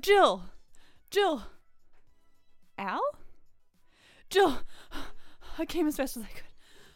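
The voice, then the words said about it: Breathless, panting character voice. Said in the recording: “I'm so out of breath.”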